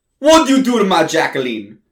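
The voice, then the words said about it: Italian accent. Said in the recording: “speaks with an Italian accent.”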